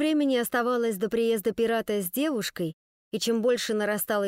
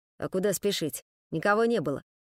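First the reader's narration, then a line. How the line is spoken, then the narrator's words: Grumbling. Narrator (Russian): проворчал Мишка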